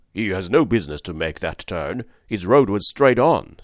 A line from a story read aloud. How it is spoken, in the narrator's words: said the man roughly